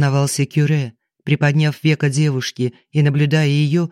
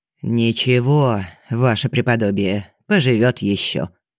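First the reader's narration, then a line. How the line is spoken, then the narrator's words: Old woman's muffled grumble. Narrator (Russian): глухо проворчала старуха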